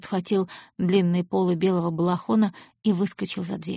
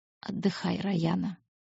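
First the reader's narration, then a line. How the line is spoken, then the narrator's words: Almost tender. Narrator (Russian): почти нежно сказал Ран Лавьер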